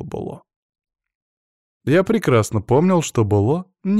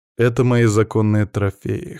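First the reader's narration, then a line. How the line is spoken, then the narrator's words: Cold retort. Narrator (Russian): холодно парировал я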